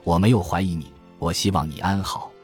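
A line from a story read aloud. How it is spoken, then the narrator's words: Soft-spoken. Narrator (Chinese): 轻声说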